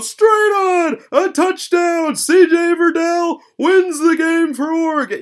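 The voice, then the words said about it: Imitates a sports announcer's call. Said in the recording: “my Sean McDonough impression”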